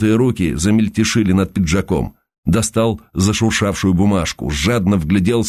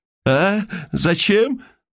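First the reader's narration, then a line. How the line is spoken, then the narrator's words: Hoarse croak. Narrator (Russian): прохрипел Михаил Никифорович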